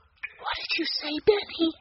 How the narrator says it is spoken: Violet whispered

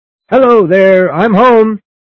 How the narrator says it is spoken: My new master shouted

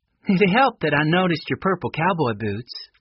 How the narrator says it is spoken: laughed Connie

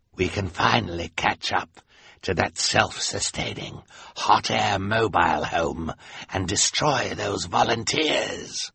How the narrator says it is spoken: the sinister man said in his hoarse voice

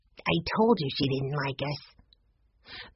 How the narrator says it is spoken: Benny whispered

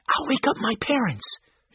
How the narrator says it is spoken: Joe said quietly

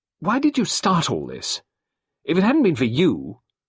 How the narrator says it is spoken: She said suddenly and fiercely

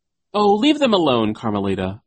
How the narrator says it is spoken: a voice cried over the chanting

